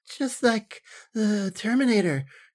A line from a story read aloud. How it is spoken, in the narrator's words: she breathed